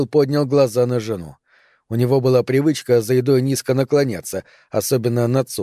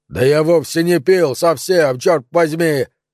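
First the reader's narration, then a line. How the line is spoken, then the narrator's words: Loud bark. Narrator (Russian): рявкнул он так, чтобы все за столом слышали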